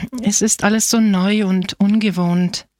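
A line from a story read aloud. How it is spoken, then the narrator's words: Sighed. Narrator (German): seufzte Angelo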